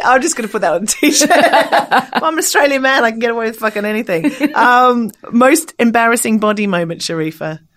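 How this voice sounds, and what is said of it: Australian accent. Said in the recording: “It's my accent. ... I'm Australian.”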